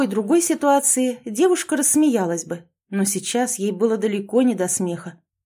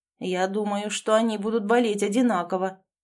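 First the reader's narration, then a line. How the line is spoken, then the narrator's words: Gloomy. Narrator (Russian): мрачно ответил Ричард I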